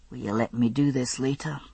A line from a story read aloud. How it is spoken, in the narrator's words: he murmured with a soft bite